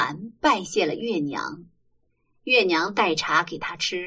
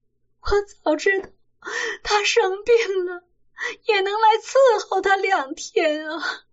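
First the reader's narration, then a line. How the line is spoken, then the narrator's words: Weeping heavily. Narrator (Chinese): 吴银儿哭得泪如雨下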